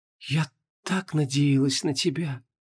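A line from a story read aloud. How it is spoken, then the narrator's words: Barely audible whisper. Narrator (Russian): шептала она чуть слышно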